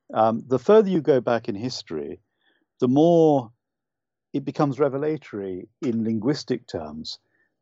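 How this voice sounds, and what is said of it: UK accent, monotone delivery. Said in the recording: “we're speaking in a monotone way... I'm Irish, but I don't have the beautiful lyrical Irish accent... I was brought up largely in the UK, so I speak with a UK accent”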